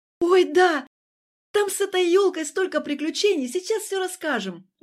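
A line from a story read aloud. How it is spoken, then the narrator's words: Excited, happy chirping. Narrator (Russian): Взволнованно и радостно щебетала Юля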